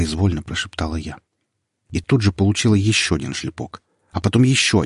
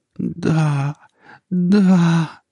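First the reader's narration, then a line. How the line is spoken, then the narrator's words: Uncontrollable moaning. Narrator (Russian): стонала я и ничего не могла с собой поделать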